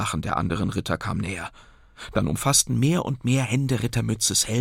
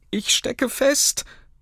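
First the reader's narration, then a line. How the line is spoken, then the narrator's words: Pitiful call. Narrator (German): rief er mit kläglicher Stimme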